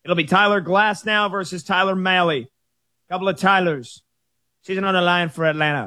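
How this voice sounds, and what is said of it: Imitates another person's voice. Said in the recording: “I just slipped into a Chris Mad Dog Russo impersonation”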